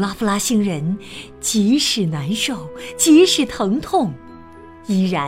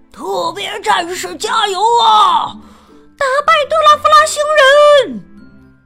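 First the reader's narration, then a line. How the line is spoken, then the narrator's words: Crowd shouting. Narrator (Chinese): 大家还是喊着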